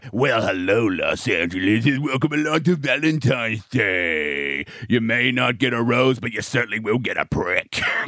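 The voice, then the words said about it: Cheesy radio DJ voice. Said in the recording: “the classic radio voice ... the radio voice at the start of this movie, and I wanted to puke. The guy is just everything wrong.”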